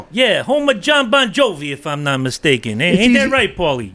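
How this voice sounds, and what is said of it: Imitates another person's voice. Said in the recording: “Why do I still have Rick's accent going on?”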